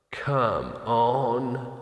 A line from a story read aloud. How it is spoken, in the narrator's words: he said wearily